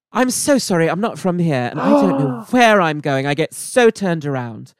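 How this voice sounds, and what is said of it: Put-on British accent. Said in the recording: “if you do it in a British accent”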